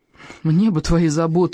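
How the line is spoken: Sighing. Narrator (Russian): вздохнул Икинг

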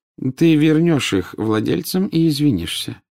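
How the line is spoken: Calm. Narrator (Russian): спокойно сказал Дамблдор

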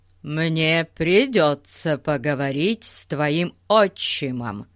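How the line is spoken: Self-important tone. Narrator (Russian): важным тоном сказал он

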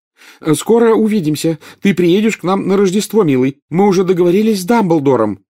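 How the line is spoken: Shouting through window. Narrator (Russian): крикнула миссис Уизли в окно

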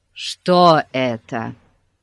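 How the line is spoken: Plain. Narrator (Russian): спросил полицейский

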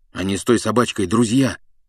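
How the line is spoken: Grumbling. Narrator (Russian): буркнул Гарри

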